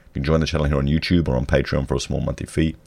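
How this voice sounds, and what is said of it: Husky, hoarse voice. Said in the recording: “I have a flu... my voice is sounding so husky”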